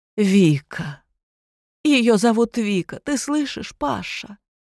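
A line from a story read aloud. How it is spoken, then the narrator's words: Woman's trembling tearful voice, muffled. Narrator (Russian): произнесла дрожащим слезливым голосом женщина, стоящая по ту сторону двери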